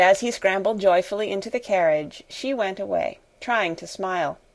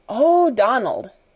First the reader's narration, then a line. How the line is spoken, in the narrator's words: Janet exclaimed alarmedly